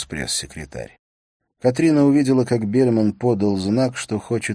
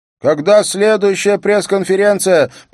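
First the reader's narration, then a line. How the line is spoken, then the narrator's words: Shouting woman. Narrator (Russian): прокричала Мона До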